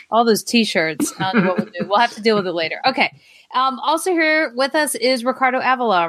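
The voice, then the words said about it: Alabama Southern accent. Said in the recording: “my Alabama accent”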